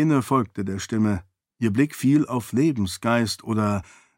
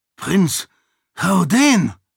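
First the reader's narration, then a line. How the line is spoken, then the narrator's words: Panting, breathless. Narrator (German): brachte keuchend hervor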